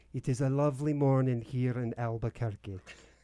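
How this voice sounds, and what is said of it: Scottish accent. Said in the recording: “As Scottish. ... No, it goes Scottish. ... It's a very good Scottish accent”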